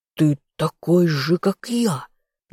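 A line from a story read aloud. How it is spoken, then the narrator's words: Strained anguished growl. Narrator (Russian): надрывно прорычал Тамерон, выгибаясь всем телом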